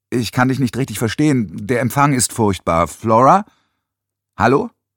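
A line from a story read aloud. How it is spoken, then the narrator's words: Too loud. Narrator (German): Nans Stimme war zu laut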